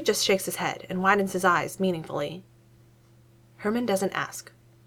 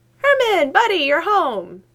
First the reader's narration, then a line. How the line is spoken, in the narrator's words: he exclaims, his voice shrill